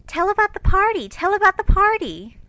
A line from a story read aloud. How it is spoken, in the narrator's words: two sleepy but eager voices cried out